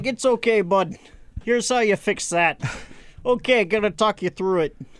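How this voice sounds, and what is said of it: Imitated thick New England accent. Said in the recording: “that thick New England accent.”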